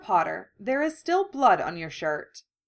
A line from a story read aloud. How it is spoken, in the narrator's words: Narcissa said calmly, though her face was white and pinched